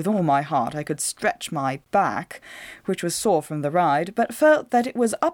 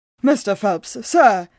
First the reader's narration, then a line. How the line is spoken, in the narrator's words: cried